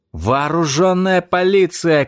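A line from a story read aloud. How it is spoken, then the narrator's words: Shouted. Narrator (Russian): крикнул я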